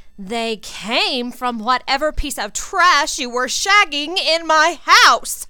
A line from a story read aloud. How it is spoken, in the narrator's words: Ginny yelled